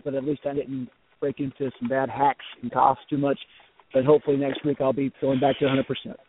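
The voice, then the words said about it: Rough, sick-sounding voice. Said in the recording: “as I deal with my bronchitis ... my voice is not very good right now”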